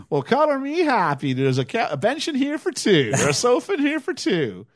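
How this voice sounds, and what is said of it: Southern accent imitating Vivian. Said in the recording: “Vivian does this is the bit where her southern accent definitely comes into it”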